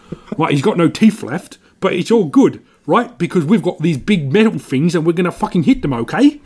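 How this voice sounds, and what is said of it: Imitates another person's voice. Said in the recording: “That was my Michael Caine impression.”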